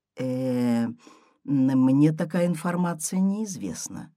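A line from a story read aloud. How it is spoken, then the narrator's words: Plain. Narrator (Russian): говорит Аня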